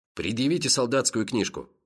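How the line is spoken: Sharp commanding tone. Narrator (Russian): приказал обершарфюрер более резким тоном

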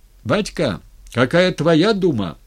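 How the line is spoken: Shout. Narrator (Russian): крикнули

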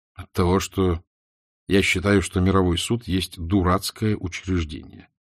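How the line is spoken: Gloomy. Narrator (Russian): отвечал мрачно Левин

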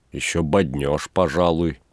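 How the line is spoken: Grumbling. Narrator (Russian): проворчал Передонов

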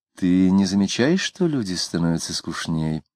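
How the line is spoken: Tired yawning question, female. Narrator (Russian): жена, устало позевнув, спросила

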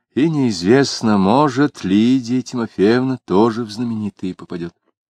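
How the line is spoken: Sighing. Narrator (Russian): вздохнув, прибавил

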